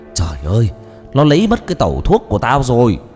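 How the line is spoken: Frantic anguished wailing. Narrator (Vietnamese): Tiếng A Sầu vang thất thanh giữa đêm, kêu gào thảm thiết, cứ dường như có ai đó đang đánh đập gã

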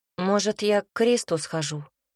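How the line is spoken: Sad question. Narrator (Russian): Юра печально спросил

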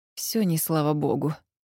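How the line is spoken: Muttered. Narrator (Russian): пробормотала

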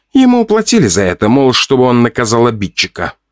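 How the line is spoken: Quick answer, sigh. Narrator (Russian): сразу же ответила женщина и вздохнула

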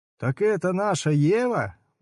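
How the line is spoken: Openly laughing crowd. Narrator (Russian): уже откровенно засмеялась толпа

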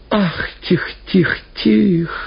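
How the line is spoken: Whining woman. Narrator (Russian): заскулила баба в платке

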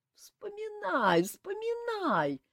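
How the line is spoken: Moaning. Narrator (Russian): простонал кавалер Лаврис

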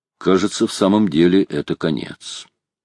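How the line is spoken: Calm voice. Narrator (Russian): Майор проговорил своим спокойным голосом

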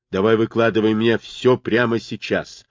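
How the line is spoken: Menacing. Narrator (Russian): грозно сказал он

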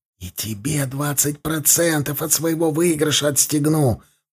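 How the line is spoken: Whisper. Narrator (Russian): Последние слова он произнес уже шепотом

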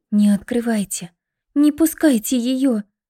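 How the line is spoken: Pleading. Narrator (Russian): взмолилась Лида

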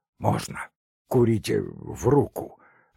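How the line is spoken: Hoarse answer. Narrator (Russian): охрипшим голосом ответил

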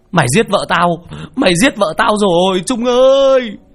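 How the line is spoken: Anguished wail. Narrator (Vietnamese): Chú Nam gào lên

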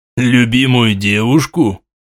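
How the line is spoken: Vague snort. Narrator (Russian): хмыкнул князь неопределенно

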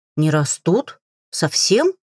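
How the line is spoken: Bewildered. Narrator (Russian): растерянно произнесла Атин

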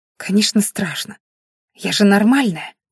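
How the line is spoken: Hissed. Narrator (Russian): прошипела она

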